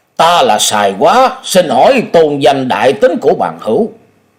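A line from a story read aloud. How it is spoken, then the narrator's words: Deep, gruff voice. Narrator (Vietnamese): cất giọng ồm ồm nói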